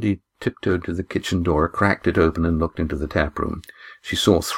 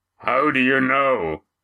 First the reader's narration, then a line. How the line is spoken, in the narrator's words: The last and loudest was from Roaring Jack